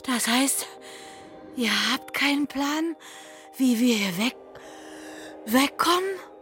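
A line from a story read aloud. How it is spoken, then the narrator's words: Frightened heavy panting. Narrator (German): Vor Schreck keuchte heftiger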